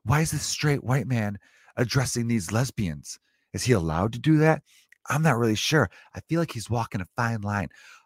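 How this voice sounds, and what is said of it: Imitates an audience member's voice. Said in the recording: “I don't know whose voice I'm doing an impression of there, but I feel like it's someone in the audiences”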